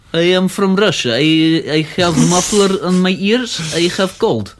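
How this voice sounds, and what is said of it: Mock Russian accent, slightly Scottish. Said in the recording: “my bad Russian impression ... he sounded almost Scottish there for a second ... it's actually quite a good Russian accent ... Russian accent”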